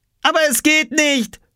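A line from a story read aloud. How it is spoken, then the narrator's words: Called back. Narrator (German): rief Oskar zurück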